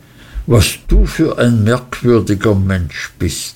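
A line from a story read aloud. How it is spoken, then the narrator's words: Surprised exclamation. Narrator (German): rief ich aus, denn ich hörte jetzt das erste Mal davon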